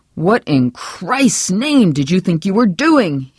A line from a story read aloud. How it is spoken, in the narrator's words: roared